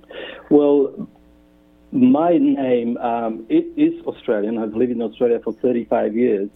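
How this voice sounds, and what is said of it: Non-Australian foreign accent. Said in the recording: “that accent that I am hearing over the airwaves is not an Australian accent”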